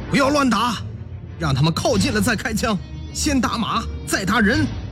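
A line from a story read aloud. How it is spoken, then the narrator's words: Shouting. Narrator (Chinese): 陈连长对战士们喊道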